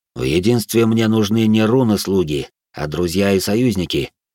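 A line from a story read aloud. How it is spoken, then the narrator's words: Plain. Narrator (Russian): ответил Белый Дьявол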